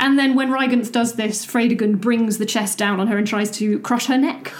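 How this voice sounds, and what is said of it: Usual voice. Nothing is said of it.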